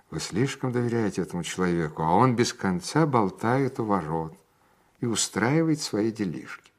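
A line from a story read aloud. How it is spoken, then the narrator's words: Whispered. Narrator (Russian): она шептала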